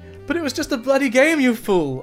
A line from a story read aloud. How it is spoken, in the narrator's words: I screamed in desperation